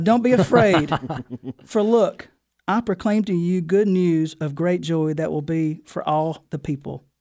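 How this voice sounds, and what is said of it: Southern American accent. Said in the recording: “I'll read this as best I can in my southern dialect.”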